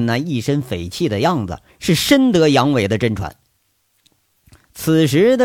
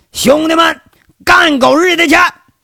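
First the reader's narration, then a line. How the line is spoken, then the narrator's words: Shouting. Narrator (Chinese): 那秦三河喊了一句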